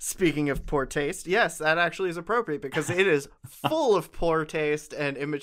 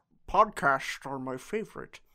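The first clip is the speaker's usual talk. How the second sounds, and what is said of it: Poor imitation of another person's voice. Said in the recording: “That was a terrible impression.”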